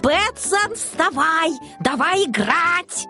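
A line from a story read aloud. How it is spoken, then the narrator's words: Kitten yelling. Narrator (Russian): котенок … вопит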